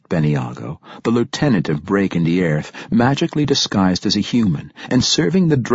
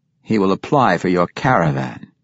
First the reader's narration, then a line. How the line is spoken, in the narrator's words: Jarlaxle replied